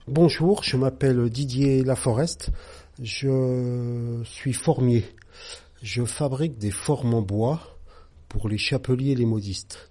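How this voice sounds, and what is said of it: Slight regional French accent. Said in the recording (French): “Je viens d'une autre région, comme mon accent doit sans doute le dire un peu... je suis bourguignon d'origine”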